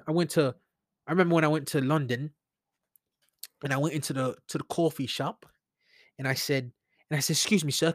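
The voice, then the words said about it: Put-on Australian or British accent. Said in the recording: “I'm going to actually talk in my Australian accent or my British accent.”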